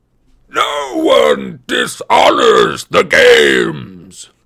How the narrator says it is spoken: Antaeus bellowed

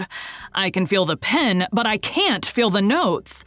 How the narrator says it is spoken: Moncharmin bellowed

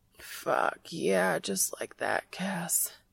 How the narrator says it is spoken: he groans

